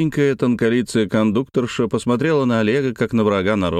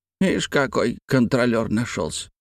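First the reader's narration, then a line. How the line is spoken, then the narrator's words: Old woman grumbling. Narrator (Russian): проворчала старуха, соседка Олега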